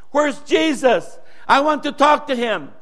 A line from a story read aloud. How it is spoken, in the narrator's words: He was probably shouting